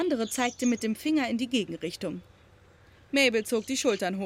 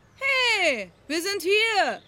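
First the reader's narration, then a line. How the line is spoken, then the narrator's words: Called out. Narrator (German): rief Maud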